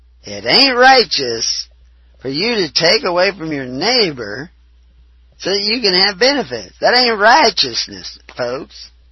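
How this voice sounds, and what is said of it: Put-on Southern accent. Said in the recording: “That's my southern accent. ... That word lends itself to a southern accent.”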